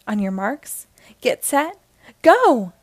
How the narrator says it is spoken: cried the announcer

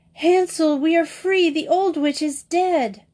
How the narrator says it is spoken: Gretel cried

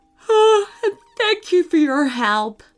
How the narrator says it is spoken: Sean yawned

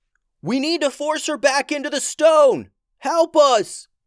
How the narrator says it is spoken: he yelled

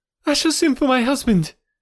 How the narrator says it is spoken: cried

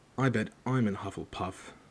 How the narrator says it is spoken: said Harry gloomily

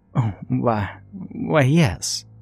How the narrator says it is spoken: she stammered

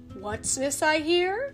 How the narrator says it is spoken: asked someone in a big, friendly voice

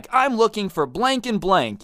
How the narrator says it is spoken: the old man angrily is like

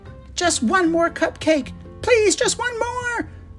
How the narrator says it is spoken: yelled on the way out the door

